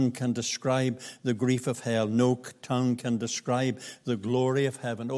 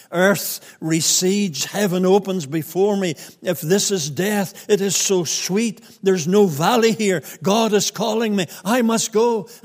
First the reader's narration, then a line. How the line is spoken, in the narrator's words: He was awakening from his sleep, and he cried this to his family